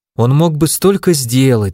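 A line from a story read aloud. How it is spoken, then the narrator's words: Sighing. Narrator (Russian): вздохнул я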